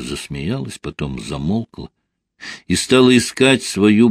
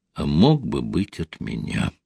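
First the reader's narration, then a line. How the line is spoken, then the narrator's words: Sad, quiet. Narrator (Russian): она отчего-то загрустила и тихо добавила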